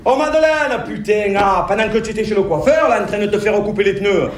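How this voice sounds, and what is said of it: Regional French accent. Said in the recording (French): “je le garde mon accent ou je le garde pas? Mais bien sûr que je le garde.”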